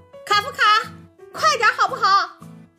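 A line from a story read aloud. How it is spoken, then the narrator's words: Mother shouting loudly. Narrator (Chinese): 妈妈大声喊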